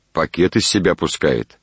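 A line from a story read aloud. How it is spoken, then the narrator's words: Plain. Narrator (Russian): ответил он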